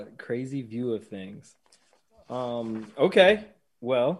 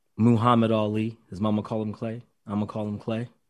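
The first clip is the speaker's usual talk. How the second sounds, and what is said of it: Low, seductive bedroom voice. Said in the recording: “let me get my bedroom voice ready for this one”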